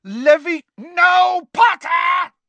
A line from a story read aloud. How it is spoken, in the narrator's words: screamed Snape